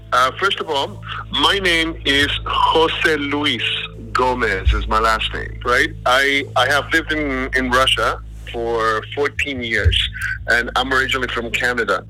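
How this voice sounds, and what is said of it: Calm speech, foreign non-Russian accent. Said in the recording (Danish): “Han taler roligt om en accent, der afslører, at han ikke oprindeligt er fra Rusland.”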